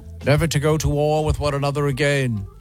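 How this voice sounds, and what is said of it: Weak put-on British accent. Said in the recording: “kind of a weak British accent”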